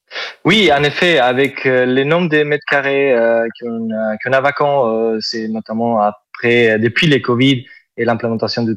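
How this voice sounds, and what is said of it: Southern French accent. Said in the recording (French): “Vous avez un superbe accent ... C'est l'accent du sud. ... c'est joli.”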